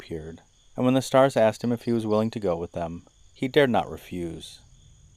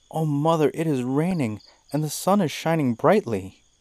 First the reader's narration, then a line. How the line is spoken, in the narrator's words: Kanag cried